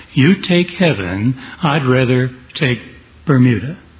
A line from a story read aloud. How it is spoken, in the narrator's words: the cynical Mark Twain said